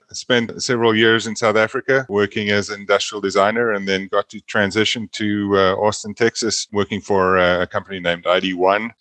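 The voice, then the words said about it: South African accent. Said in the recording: “my native South Africa, hence the weird accent that's coming across. Never goes away.”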